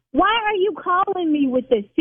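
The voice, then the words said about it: Yelling. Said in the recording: “See, now I'm yelling.”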